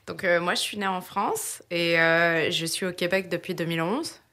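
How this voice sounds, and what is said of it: French accent, not Québécois. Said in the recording (French): “De par ton accent, tu n'es pas nécessairement natif de Québec”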